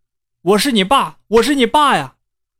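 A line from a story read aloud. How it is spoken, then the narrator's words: Startled hurried shout. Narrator (Chinese): 高林吓了一大跳，赶忙喊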